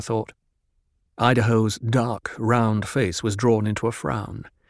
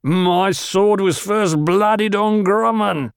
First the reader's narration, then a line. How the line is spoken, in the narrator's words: He lifted his face toward the ceiling, bellowed